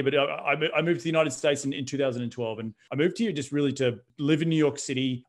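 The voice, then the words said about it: Australian accent. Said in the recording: “this is not a West Texas accent. I'm from Australia”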